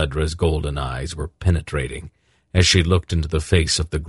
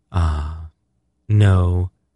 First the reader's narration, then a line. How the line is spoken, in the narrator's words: she said quite calmly